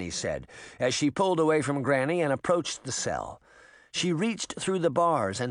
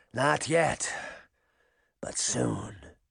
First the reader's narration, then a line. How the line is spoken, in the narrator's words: Canis said wearily